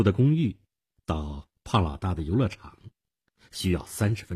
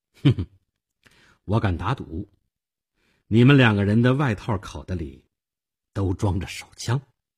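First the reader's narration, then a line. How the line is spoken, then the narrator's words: Faint cool smile. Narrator (Chinese): 我淡淡的一笑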